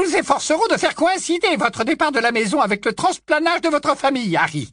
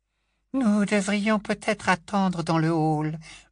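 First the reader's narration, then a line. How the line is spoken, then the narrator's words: Murmured. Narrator (French): murmura Hestia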